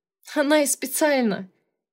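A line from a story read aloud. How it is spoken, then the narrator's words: Laughing. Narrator (Russian): засмеялась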